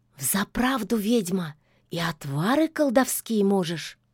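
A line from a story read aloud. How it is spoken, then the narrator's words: Conspiratorial whisper. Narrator (Russian): заговорщицки шепнула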